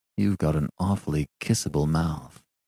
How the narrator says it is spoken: he began quietly

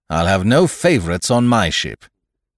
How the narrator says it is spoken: I heard him say, quite loudly, to the doctor

